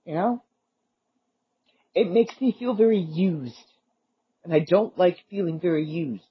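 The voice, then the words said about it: Teary, crying-sounding voice. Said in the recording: “my voice sounds like I'm crying right now. ... And I am a little teary,”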